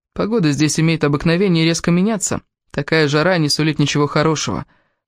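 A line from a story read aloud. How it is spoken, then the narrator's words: Gloomy. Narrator (Russian): мрачно сказал Кевин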